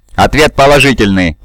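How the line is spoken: Plain. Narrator (Russian): ответил Нолан

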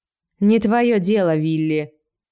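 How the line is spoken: Rude retort. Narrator (Russian): грубо ответил Джон

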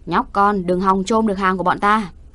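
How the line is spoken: Burly man shouting. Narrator (Vietnamese): một tên đô con hét lên

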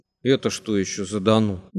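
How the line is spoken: Menacing question. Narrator (Russian): грозно спросил Семагин

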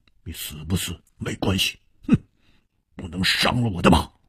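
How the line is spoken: Cold. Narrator (Chinese): 黑珍珠冷冷地说

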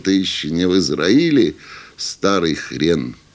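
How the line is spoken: Laughing group. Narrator (Russian): засмеялись и сказали

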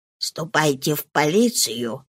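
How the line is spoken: Low undertone. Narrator (Russian): сказала она слуге вполголоса

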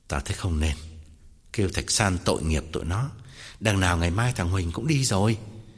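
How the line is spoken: Sighing, interrupting, feigned nobility. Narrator (Vietnamese): Tòng thở dài ngắt lời, làm ra vẻ quân tử

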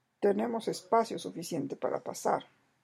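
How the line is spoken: Murmured. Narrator (Spanish): murmuró Sandokán

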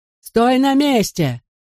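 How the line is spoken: Breathless yell. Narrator (Russian): заорал Гота, ловя ртом воздух

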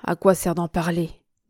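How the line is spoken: Sighing. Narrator (French): dit-il avec un soupir

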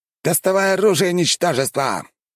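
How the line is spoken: Shouted. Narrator (Russian): выкрикнул тот

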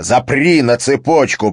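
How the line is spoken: Growled. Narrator (Russian): прорычал Харри

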